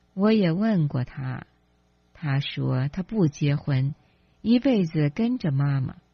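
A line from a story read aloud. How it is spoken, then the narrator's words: Smiling. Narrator (Chinese): 姚太太微笑着说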